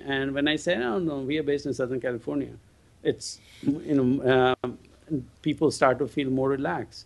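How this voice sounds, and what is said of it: Indian-accented English. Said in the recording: “they hear my accent, their first question is, where are you based? Because they're thinking, is this an India-based transcription company?”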